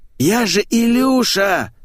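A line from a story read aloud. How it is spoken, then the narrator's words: Offended drawl. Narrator (Russian): обиженно протянул попугай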